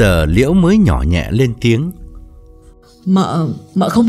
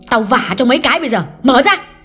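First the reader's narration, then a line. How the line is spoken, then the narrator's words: Loud shout. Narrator (Vietnamese): Hương quát lớn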